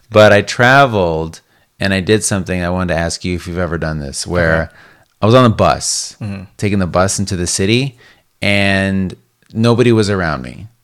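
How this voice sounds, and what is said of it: Worn-out, hoarse voice. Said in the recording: “my voice is kind of shot”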